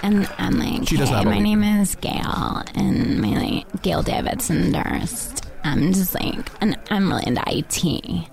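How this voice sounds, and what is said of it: Comedic put-on character voice. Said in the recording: “Whatever you were doing vocally ... That's a wonderful character voice.”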